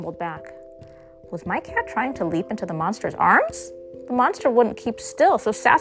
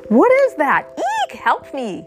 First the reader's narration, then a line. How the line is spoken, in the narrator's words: The monster screamed